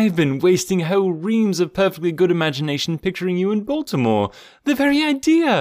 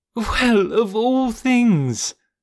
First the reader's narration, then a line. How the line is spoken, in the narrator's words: cried the equally astonished Jane